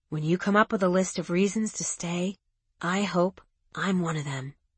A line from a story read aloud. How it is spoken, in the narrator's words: He whispering